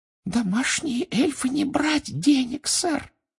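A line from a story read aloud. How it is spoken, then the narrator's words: Muffled squeak. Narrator (Russian): приглушенно пропищала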